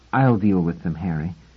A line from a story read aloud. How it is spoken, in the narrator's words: Doris said softly